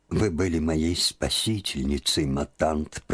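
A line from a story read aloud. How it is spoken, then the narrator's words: Sad voice. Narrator (Russian): проговорила печальным голосом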